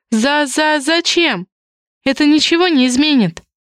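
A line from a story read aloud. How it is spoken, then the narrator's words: Sighing again. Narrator (Russian): Вновь вздохнула Зоя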